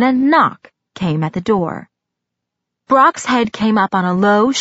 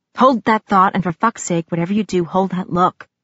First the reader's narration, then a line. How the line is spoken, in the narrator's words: he growled